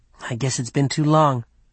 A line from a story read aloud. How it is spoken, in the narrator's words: Mark muttered